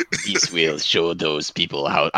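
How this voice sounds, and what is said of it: Attempted Russian accent, sounds French. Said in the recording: “I was supposed to do Russian, but it ended up French.”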